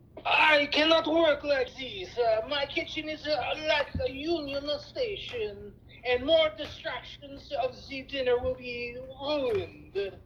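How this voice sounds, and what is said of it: Put-on French accent, agitated chef. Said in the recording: “French accent”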